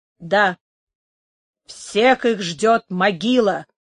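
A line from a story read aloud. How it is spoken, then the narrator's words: Muffled grumbling. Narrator (Russian): глухим голосом проворчал Дон Карлос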